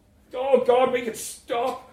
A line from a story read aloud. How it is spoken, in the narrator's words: shouted Kim